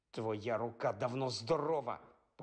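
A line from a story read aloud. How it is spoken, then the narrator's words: Hissing. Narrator (Ukrainian): просичав він Мелфою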